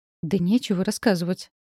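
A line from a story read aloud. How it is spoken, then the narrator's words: Irritated. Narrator (Russian): говорю раздраженно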